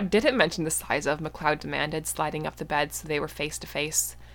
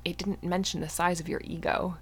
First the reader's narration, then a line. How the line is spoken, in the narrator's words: Mythos muttered